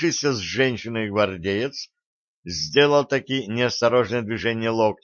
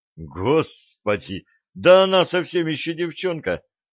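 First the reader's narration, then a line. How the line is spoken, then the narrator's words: Involuntary exclamation. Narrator (Russian): невольно воскликнул Джо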